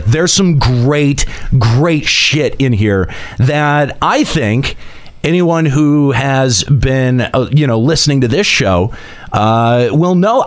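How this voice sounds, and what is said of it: Excited, enthusiastic delivery. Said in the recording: “Why do you sound excited?”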